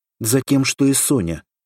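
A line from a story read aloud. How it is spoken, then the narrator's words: Angry reply. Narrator (Russian): также сердито ответила она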